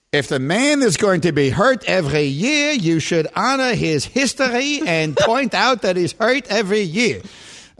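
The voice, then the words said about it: Imitated old Jewish man voice. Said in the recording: “That's my old Jewish man imitation.”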